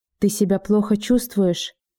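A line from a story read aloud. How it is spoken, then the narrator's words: Quiet question. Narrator (Russian): тихо спросил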